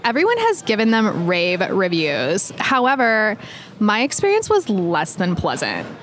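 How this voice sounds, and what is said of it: Valley Girl accent. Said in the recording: “do a Valley Girl voice”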